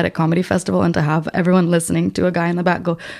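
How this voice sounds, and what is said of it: Usual voice. Nothing is said of it.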